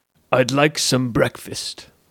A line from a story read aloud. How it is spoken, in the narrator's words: said Othello, in his low, quiet voice